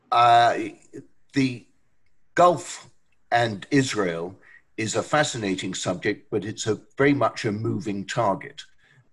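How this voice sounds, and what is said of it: Non-American accent. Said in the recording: “despite my accent, I am an American citizen”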